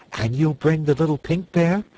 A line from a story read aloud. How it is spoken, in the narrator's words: asked Dorothy eagerly